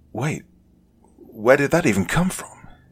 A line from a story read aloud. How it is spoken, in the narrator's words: he stammered